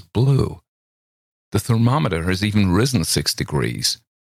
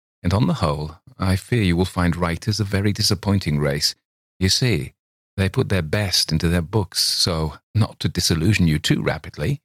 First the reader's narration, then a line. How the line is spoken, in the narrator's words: said coldly